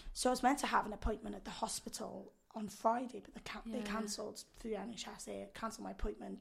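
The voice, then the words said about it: Husky, hoarse voice. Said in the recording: “my voice is like this ... ooh, it's all husky ... Phoebe from Friends when she's ill ... My voice is a bit more annoying than this ... it's got a bit more depth to it usually”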